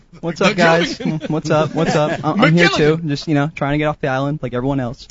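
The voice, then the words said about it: Imitates Gilligan's sitcom character voice. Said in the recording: “It's the Gilligan. ... That's the best impression out of anybody I've heard. ... Spot on. ... Outstanding. ... Whoever knew you were Bob Denver.”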